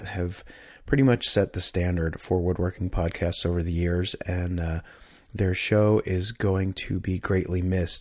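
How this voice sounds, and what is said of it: Voice still recovering, slightly hoarse. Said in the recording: “my voice is still kind of on the mend this week”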